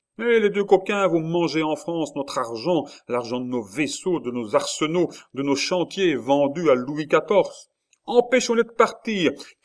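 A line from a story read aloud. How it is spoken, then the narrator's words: Patriot shouting. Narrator (French): criait la voix d'un patriote plus avancé que les autres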